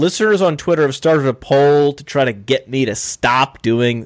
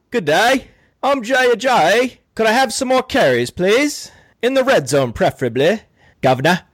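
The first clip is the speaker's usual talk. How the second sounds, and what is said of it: Bad put-on British accent. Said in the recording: “the bad British accent”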